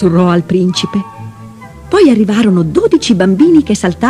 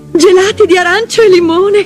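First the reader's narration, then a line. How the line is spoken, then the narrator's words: Laughing, delighted. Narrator (Italian): disse Clara applaudendo e ridendo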